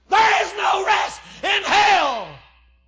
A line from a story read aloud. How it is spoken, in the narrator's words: screamed